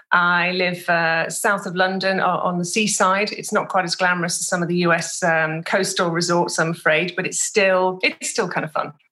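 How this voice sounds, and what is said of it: British accent. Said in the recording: “as you may be able to tell from the accent, British”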